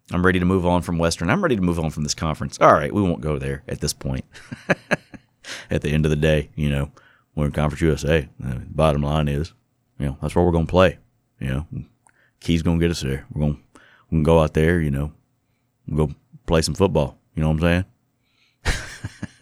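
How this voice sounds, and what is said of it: Impression of coach Jay Hobson. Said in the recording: “that Jay Hobson impression ... talking like Trump ... starting to figure out Jay Hobson”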